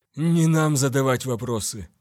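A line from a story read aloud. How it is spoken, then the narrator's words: Gloomy young man. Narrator (Russian): мрачно бросил юноша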